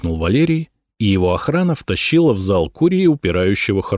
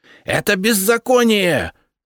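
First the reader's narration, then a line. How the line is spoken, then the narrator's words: Official yelling. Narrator (Russian): заорал чиновник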